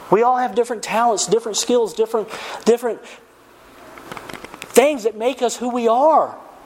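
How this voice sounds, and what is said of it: Hillbilly Southern US accent. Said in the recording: “I got the hillbilly accent ... they hear my accent”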